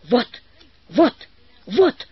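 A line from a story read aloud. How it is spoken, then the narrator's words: Hoarse shouting professor. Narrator (Russian): хрипло кричал профессор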